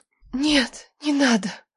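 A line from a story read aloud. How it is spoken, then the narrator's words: Tearful whisper. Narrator (Russian): шептала, плача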